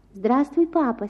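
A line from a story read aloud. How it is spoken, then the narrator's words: Soft voice. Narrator (Russian): сказал он мягким голосом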